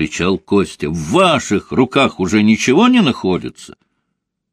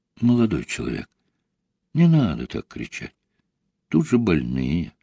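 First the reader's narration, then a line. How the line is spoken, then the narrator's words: Calm, cool remark. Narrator (Russian): спокойно и хладнокровно заметил Папандопулос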